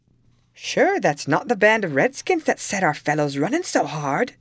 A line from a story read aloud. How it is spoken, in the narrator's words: exclaimed Tim